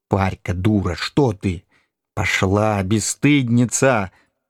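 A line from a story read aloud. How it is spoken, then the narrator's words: Grumbling through clenched teeth. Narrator (Russian): ворчала сквозь зубы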